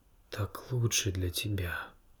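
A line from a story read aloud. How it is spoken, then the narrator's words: Whisper. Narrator (Russian): прошептал отец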